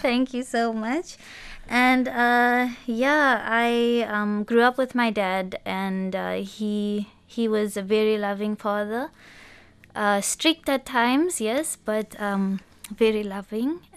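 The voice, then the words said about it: Mixed South African and Botswana accent. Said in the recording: “the South African mix accent comes with the Botswana accent ... Which we can hear very clearly. It's so pretty and unique”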